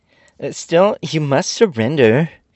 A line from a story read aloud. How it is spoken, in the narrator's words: exclaimed the general fiercely